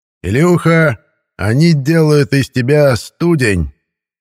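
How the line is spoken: Shouting. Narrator (Russian): кричал Митяй

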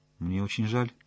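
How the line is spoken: Quiet speech. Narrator (Russian): тихо сказала она

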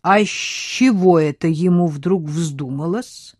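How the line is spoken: Slow question. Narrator (Russian): медленно спросил он

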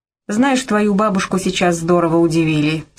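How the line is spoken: Plain. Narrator (Russian): сказал он Эллисон

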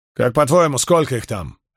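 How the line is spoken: Sharp question. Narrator (Russian): резко спросил Спартак

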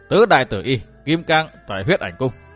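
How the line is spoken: Loud laughter, group. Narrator (Vietnamese): Bốn đại hán áo tím lại bật cười vang

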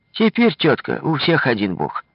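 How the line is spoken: Cheerful, with a chuckle. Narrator (Russian): весело со смешком ответила Настя

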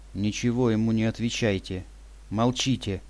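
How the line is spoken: Whisper. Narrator (Russian): прошептала Юля

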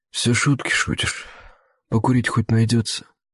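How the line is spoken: Tired drawl. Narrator (Russian): Усталым тоном протянул дядька

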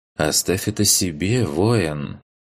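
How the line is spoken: Low pleasant female voice. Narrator (Russian): низким приятным голосом произнесла она

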